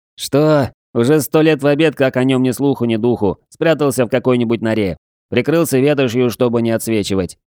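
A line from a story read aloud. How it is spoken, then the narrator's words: Laughing young man. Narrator (Russian): засмеялся парень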